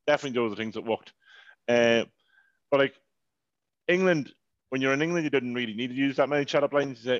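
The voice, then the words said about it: Irish accent. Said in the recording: “this stupid Irish accent ... Oh, yeah, Irish. Yeah, I'm Irish ... Oh, I love the Irish accent.”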